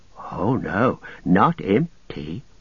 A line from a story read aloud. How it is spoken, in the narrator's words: whispered Gollum